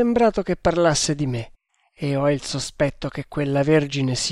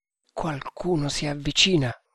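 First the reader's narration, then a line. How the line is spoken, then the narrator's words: Murmured. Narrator (Italian): mormorò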